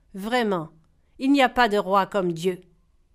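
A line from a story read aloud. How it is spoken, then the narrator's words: Dazed grunt, sighing reply. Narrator (French): Le roi poussa un grognement éberlué, soupira et répondit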